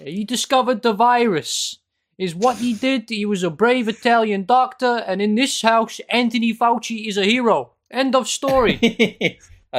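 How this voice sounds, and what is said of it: Put-on Sopranos-style mobster accent. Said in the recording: “Do I have to do the accent? ... You do, yes. ... from the famous Sopranos quote”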